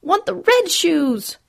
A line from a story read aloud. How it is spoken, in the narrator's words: her daughter cried